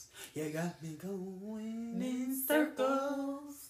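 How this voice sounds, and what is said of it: Imitates another person's voice. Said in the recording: “in my Nicki Minaj voice.”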